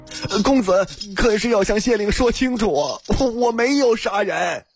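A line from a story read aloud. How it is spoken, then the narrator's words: Loud tearful cry. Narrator (Chinese): 他哭丧着脸大声叫道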